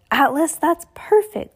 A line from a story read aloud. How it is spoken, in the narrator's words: Klaus cried out